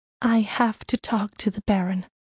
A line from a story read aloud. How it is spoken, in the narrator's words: she whispered